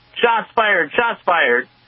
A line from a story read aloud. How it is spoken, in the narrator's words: The officers jump out of the van yelling